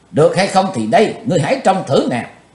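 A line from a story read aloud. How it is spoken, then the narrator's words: Murderous shout. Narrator (Vietnamese): Chí Tôn lừng sát khí, chàng quát lên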